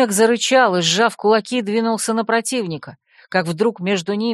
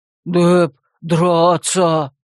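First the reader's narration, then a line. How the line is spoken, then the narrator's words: Unexpectedly low deep voice. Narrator (Russian): проговорил неожиданно низким глубоким голосом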